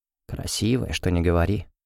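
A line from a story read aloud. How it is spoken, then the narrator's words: Smirking whisper. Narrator (Russian): с ухмылкой прошептал Райану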